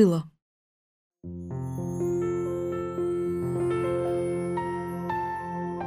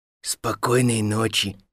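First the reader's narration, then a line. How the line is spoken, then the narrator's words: Slightly hoarse. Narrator (Russian): сказала чучело немного хриплым голосом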